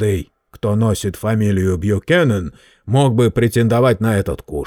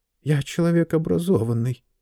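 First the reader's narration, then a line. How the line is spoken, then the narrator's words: Muttered. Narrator (Russian): пробормотал он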